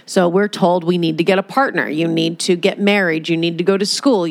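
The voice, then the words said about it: American accent. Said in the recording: “if you can hear my accent ... I'm in America”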